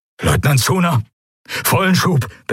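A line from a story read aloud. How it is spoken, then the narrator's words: Breathless admiral. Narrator (German): begann der Admiral atemlos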